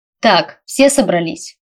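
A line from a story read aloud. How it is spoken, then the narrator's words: Loud question. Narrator (Russian): громко спросил мистер Саймон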